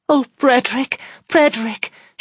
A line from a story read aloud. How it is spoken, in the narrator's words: she cried